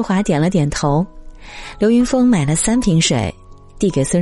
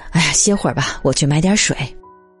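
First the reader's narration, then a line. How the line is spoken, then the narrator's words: Breathless explaining. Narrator (Chinese): 喘着气解释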